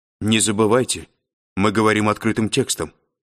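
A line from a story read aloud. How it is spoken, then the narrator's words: Sharp reminder, female. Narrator (Russian): резко напомнила Корделия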